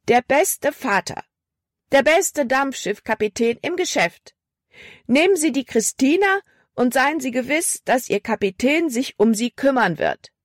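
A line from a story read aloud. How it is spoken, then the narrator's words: Loud calling. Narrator (German): rief laut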